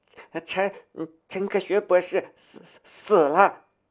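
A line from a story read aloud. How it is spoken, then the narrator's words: Gasping, breathless. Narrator (Chinese): 女博士喘了一口气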